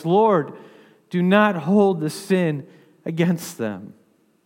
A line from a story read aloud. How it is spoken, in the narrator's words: he cried out with a loud voice